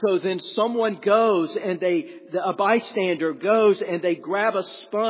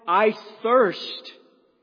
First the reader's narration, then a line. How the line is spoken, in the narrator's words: he cried